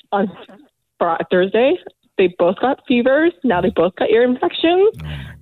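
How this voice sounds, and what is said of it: Hoarse, fading voice. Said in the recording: “my voice is going”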